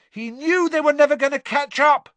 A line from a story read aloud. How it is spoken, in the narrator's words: Harry shouted back over all the noise